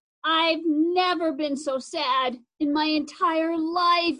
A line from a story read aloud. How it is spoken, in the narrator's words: Zoe sobbed